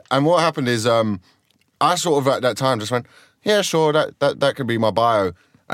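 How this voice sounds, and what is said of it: Croydon accent, sounds working class. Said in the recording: “I just grew up in Croydon. Like, I have this accent. People assume I'm working class. ... This accent is a survival tactic, not a regional twang.”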